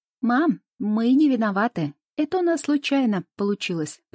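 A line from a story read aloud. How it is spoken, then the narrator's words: Shouted, feigned remorse, suppressed laughter. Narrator (Russian): прокричала Анфиса, старательно изображая полное раскаяние, но при этом еле сдерживая хохот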